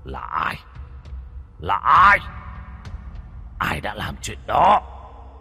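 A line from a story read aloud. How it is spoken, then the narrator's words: Irritated hissing. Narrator (Vietnamese): Nó bực tức rít lên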